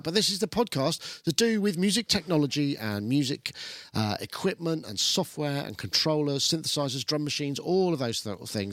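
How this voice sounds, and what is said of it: Voice sounds ill. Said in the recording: “as you probably tell from my voice, it's not because I've been talking lots, it's just because I got ill”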